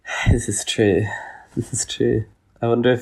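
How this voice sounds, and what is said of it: Usual voice. Nothing is said of it.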